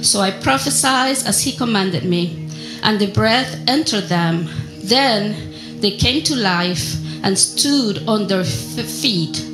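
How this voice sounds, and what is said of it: Argentine Spanish accent in English. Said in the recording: “for my accent, and if I speak Spanish, you will definitely know where I'm from ... I'm from Argentina”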